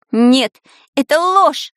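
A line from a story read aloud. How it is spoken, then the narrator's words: Shrieking. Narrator (Russian): завизжал Шурасик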